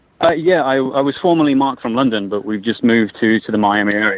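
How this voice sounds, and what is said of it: London accent. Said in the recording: “appreciate the accent... I'm loving it”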